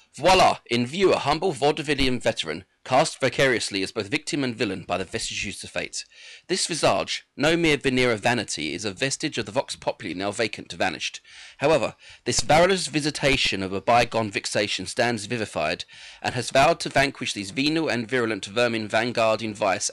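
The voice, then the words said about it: Theatrical V for Vendetta villain voice. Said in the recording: “do it in your best V for Vendetta impression”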